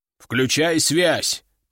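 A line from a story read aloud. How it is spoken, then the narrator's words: Deep bass. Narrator (Russian): пробасил командир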